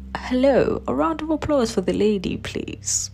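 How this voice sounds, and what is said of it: Bad put-on British accent. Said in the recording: “I have a very horrible British accent.”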